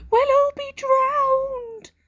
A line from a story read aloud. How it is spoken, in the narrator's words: wailed Sniff